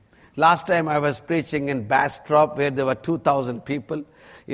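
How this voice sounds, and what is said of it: Strong Indian accent. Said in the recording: “God has given me a strong Indian accent.”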